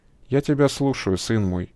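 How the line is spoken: Gentle priest. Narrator (Russian): мягко произнес священник

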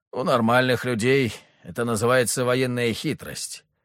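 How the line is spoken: Wry snort. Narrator (Russian): хмыкнул Василий

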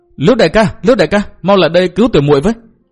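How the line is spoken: Hurried cry for help. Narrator (Vietnamese): Hà Ngọc Trì vội kêu lên

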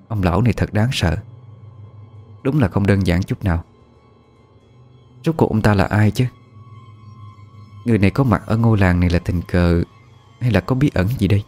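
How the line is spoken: Frowning mutter. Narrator (Vietnamese): Cô nhíu mày lẩm bẩm

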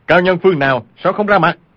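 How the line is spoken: Frightened, angry shout. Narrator (Vietnamese): vừa sợ vừa giận, y quát lên

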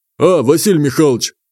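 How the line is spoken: Man's deep booming voice. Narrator (Russian): басом прогудел мужик

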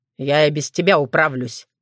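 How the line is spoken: Grumbled. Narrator (Russian): пробурчал Крамиш

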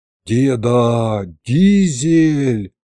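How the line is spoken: Heartfelt drawl. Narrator (Russian): проникновенно протянул я

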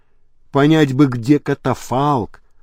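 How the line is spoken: Whispered reply. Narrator (Russian): шепотом ответил Лабрюер

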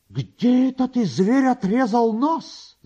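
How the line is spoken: Angry shout, said by a woman. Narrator (Russian): закричала она с гневом

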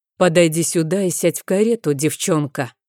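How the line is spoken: Menacing command. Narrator (Russian): грозно велел

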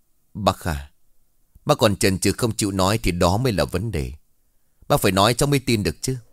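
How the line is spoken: Stern voice. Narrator (Vietnamese): Mạnh nghiêm giọng nói

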